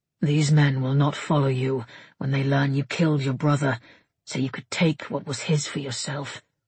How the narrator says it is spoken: he said quietly

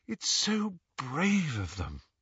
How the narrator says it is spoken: sighed Hermione admiringly

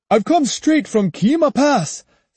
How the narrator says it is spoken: said the priest in a loud, excited voice

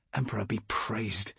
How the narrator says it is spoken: I breathed, my head still reeling with incomprehension, but grateful for this apparent miracle

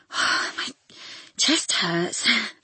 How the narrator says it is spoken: she gasped

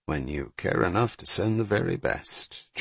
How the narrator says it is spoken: Jack muttered

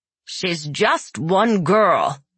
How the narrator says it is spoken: snapped the well mother

